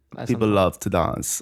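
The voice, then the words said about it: Put-on Russian accent, sounding German. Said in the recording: “You promised a Russian accent. ... Yeah, that's good. More German”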